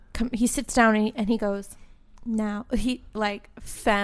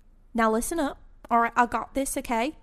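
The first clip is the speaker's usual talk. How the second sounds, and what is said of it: Botched Southern accent sounding Australian. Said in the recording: “he's got a southern accent. He's from like Mississippi... that's really Australian... I suck at accents like on the spot”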